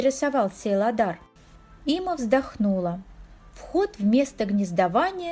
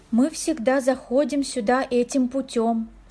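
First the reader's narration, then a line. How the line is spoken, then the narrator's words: Plain. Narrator (Russian): сказала она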